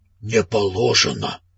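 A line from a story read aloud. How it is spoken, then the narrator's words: Heavy exhaled words. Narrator (Russian): тяжело выдохнул он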